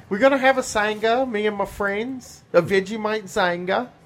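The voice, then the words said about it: Put-on Australian accent. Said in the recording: “I will do Australian accent ... You need me to do Australia.”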